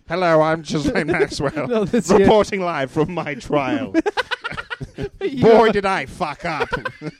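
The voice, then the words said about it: Silly put-on voice. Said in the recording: “she happens to have exactly the same silly voice.”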